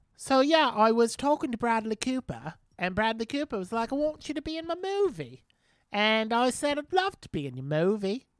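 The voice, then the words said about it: Put-on British accent imitating someone. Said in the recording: “I will reenact an interview I saw with her ... that's what she sounds like. She's British. That was a British accent I did there.”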